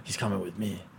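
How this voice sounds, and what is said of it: Character voice, Jango Fett-like. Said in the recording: “That's my impression so far... I'm finding it hard to shake like a Jango Fett whenever I do this”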